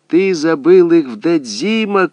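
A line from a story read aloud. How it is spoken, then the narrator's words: Shouting. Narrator (Russian): кричала она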